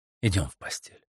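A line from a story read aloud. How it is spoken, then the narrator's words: Breathless whisper. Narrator (Russian): задыхаясь, прошептал он между поцелуями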